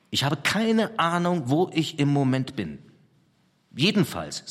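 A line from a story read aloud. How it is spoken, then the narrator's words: Plain. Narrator (German): sagte er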